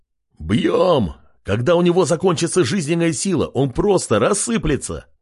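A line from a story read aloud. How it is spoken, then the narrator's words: Shouting. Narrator (Russian): прокричал Док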